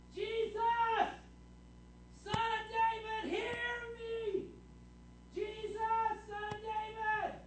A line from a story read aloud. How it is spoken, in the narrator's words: he starts yelling